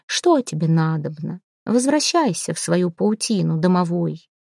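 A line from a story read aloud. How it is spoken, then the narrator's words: Quiet singsong question. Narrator (Russian): Сирин спросила негромким певучим голосом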